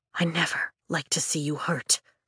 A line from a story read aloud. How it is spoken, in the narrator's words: Nolan whispers, apology